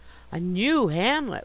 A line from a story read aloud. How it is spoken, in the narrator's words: we exclaimed, fascinated